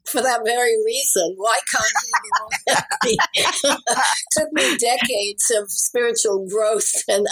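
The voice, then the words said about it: British accent. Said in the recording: “I love your accent too. I always think if I had a British accent”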